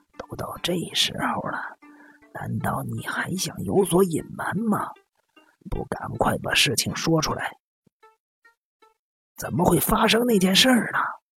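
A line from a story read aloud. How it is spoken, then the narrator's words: Raised, then lowered voice. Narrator (Chinese): 不自觉的提高了声调，他马上察觉了自己的声调，压低了声说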